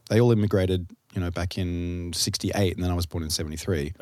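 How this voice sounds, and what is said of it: Mild, not twangy Australian accent. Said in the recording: “I don't have a really Australian accent... It's not really twangy because my parents are British”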